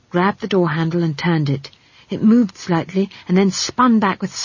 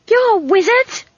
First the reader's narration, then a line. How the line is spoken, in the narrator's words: she screamed